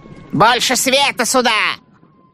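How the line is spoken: Commanding shout. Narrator (Russian): повелительно крикнул бородатый Лилье

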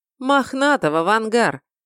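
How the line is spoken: Snide reply. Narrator (Russian): ехидно ответил я

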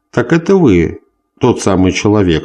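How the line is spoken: Politely surprised. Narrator (Russian): сказал Меснер вежливо удивленным тоном

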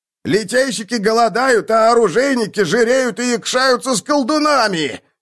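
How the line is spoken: Crowd yelling. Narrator (Russian): вопили другие

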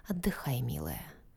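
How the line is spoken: Distant tender whisper. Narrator (Russian): такой далекий голос ласково шептал ей

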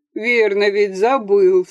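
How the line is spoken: Laughing. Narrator (Russian): снова засмеялся Архип

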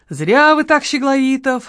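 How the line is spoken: Sighing. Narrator (Russian): вздохнул человек в штатском

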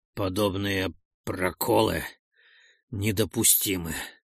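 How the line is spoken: Slightly hoarse voice. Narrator (Russian): сказал он чуть севшим голосом

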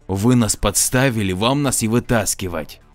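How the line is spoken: Said angrily. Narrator (Russian): зло сказал

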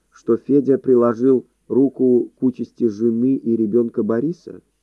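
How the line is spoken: Calm voice. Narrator (Russian): голос Хади звучал вполне спокойно

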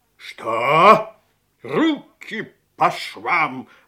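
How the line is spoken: Sergeant's sharp bark. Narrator (Russian): рявкнул сержант

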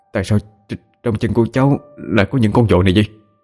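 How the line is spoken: Pale stammering question. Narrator (Vietnamese): tái mặt đi, miệng lắp bắp hỏi

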